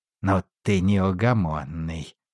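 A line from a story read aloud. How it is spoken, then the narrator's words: Grumbling. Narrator (Russian): проворчал советник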